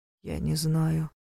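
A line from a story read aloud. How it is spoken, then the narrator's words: Barely audible reply. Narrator (Russian): едва слышно раздалось в ответ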